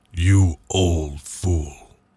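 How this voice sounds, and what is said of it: Deep male voice. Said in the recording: “That's a deep voice you've got there.”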